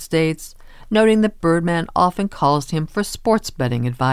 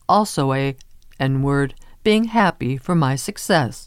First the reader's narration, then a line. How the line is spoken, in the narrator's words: he says